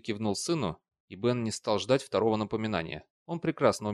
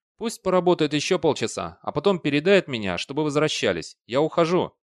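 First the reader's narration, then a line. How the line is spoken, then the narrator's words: Shouted. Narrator (Russian): Бейли крикнул Бену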